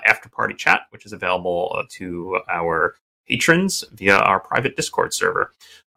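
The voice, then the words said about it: Hoarse, croaky voice. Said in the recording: “As some of you can probably hear, I've got a bit of a frog in my throat.”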